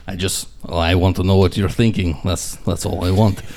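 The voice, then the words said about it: Put-on Russian accent. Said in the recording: “speak in accents ... in multiple accents ... perhaps a Russian guy”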